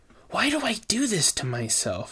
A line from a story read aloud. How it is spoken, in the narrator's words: She said under her breath